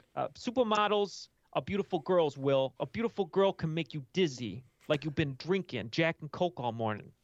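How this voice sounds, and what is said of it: Imitates another person's voice. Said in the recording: “I don't think I can do a good enough impression.”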